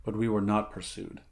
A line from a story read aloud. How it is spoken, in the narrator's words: muttered Conan